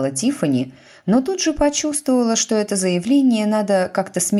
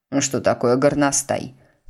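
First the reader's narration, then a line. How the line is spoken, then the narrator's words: Plain question. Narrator (Russian): спросила миссис Пруст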